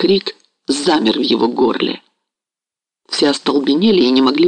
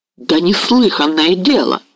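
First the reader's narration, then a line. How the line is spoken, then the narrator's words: Indignant exclamation. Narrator (Russian): воскликнул возмущенный Мазепа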